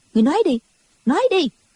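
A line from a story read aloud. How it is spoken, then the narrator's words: Harsh, urging voice. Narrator (Vietnamese): giọng Đinh Mẫn Quân gay gắt dục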